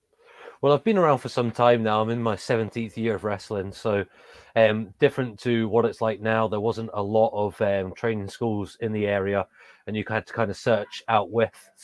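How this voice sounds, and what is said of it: English accent. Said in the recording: “I've got an English accent. I grew up in England”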